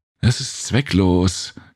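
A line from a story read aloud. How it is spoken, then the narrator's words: Annoyed panting. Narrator (German): keuchte sie genervt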